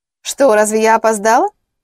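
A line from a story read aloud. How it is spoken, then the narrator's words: Capricious lady. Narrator (Russian): Капризным тоном отозвалась дама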